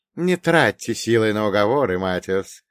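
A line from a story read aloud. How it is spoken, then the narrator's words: Old man, barking laugh. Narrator (Russian): старик рассмеялся каким-то лающим смехом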